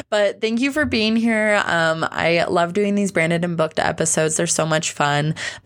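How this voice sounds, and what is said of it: Tired, strained voice. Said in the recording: “my voice is starting to feel really tired from my leftover strep throat.”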